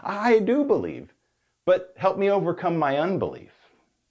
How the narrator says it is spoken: the father instantly cried out

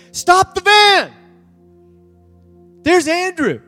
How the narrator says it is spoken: one of the students hollers and says

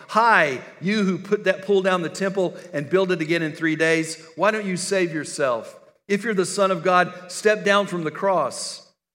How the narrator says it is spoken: called out to him in mockery

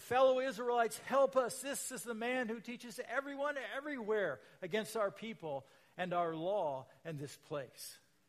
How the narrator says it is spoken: shouting

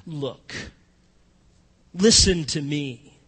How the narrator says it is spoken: He speaks to his father in a condescending tone and tells him

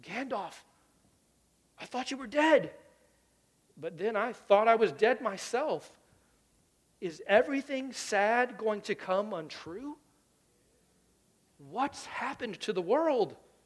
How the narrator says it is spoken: he gasped

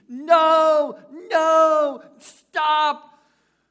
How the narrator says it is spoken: the woman sitting right next to me, right across that little small aisle, started screaming

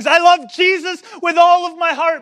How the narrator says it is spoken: young, probably 16-year-old girl standing and yelling at the top of her lungs

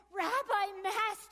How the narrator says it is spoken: I cried

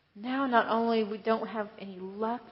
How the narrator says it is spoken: they sighed

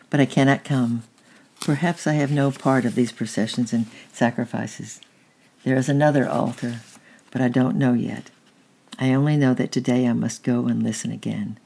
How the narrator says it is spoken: he said gently

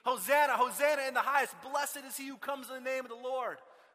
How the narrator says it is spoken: they begin to shout out Psalm 118

